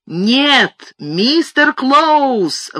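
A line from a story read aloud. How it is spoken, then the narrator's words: Roared. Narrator (Russian): взревел я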